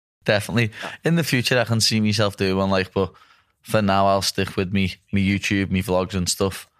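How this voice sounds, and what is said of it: Scouse accent. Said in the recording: “The Americans love the Scouse accent.”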